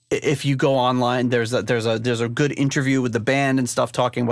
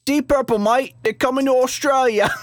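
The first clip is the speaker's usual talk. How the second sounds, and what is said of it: Bad put-on Australian accent. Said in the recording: “that's not a good Australian accent ... That's not good. My first one was better.”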